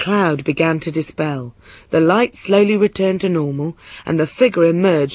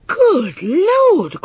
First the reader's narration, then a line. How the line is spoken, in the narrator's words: cried the king